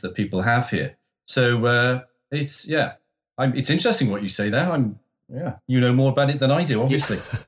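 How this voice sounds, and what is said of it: Neutral BBC-style British accent. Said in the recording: “I'm Welsh, and my accent is, most people who live in Britain can't locate where I'm from. So I have a BBC British kind of accent, which is a non-accent”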